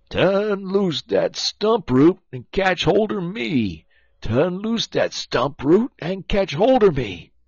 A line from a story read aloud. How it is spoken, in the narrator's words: Brer Terrapin begin for to holler